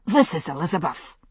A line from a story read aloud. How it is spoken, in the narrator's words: a voice announced breathlessly